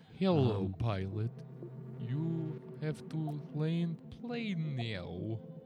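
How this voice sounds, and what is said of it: Weird put-on character voice. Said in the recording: “weird voice”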